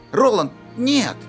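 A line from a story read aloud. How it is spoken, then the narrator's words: Exclamation. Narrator (Russian): воскликнул Кадберт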